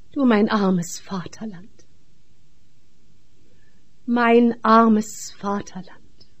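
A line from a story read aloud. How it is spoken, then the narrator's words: Sigh. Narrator (German): Ich seufzte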